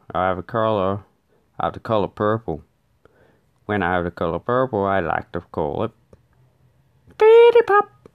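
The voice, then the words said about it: Australian accent. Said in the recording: “In Australia we say colour. So we usually replace the R with an A. ... look at my accent.”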